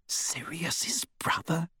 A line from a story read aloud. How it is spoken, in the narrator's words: She whispered